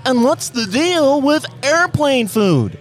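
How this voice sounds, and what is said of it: Comedian impression with Kermit-like voice. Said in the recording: “Can I try? ... That's not bad. That's like if Seinfeld and Kermit had a baby.”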